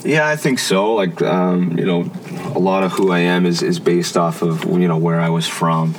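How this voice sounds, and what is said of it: Canadian East Coast Maritime accent. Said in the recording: “your accent just stands out. You can tell that you're not a Torontonian ... you're from the East Coast, you're from Fredericton or Maritimer”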